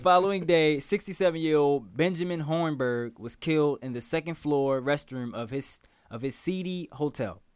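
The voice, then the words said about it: Baltimore accent. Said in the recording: “Your Baltimore accent, man.”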